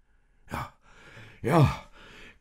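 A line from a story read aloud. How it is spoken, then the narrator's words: Panting. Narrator (German): keuchte Josef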